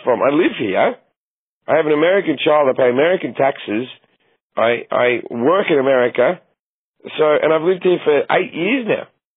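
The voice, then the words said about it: Australian accent. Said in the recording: “Australian comedian ... my accent”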